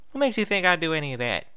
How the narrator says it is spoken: Applebloom said in an artificially innocent voice

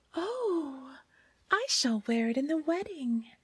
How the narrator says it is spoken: the queen-to-be exclaimed

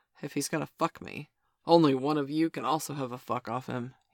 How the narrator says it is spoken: he said

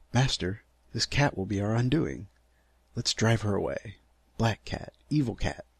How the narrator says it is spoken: yelped the dog

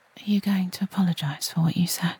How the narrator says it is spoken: I whisper

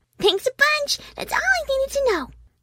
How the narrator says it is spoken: Derpy looked up with a smile and chirped

